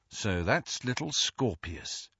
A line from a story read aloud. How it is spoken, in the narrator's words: said Ron under his breath